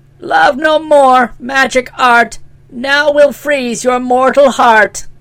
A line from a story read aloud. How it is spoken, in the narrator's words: she cried